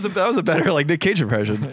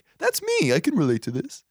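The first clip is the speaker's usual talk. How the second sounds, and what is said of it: Poor imitation of a woman's voice. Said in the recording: “That was a very bad woman impression.”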